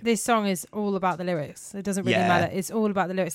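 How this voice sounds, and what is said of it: Voice strained by sore throat. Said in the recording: “I've got a sore throat”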